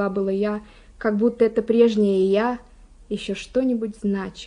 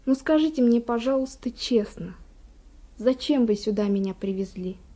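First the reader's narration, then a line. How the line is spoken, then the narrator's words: Quiet question. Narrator (Russian): И я спросила тихо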